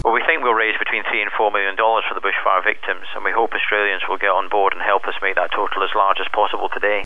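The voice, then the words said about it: Heavy non-Australian accent. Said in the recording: “He's got quite a heavy accent too, that guy. He's not been in Australia all that long.”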